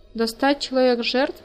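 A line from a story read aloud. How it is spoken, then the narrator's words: Plain. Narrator (Russian): спросил он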